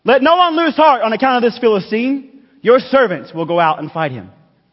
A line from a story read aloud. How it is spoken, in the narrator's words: he blurted out